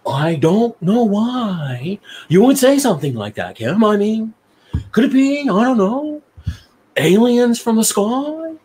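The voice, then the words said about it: Imitates another person's voice. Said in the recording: “my David impression”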